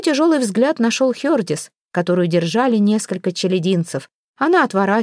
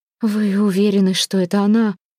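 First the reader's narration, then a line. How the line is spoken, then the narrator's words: Trembling voice. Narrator (Russian): дрожащим голосом спросила фру Альмвейк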